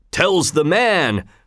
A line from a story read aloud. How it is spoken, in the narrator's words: roared the blacksmith